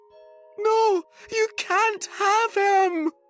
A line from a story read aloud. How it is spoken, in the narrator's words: screamed Sophie